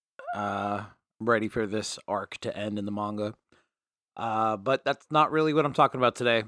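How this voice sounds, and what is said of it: Rough, congested allergy-affected voice. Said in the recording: “If I sound different ... My allergies are beating the ever-living crap out of me. My throat is very itchy ... if I sound terrible”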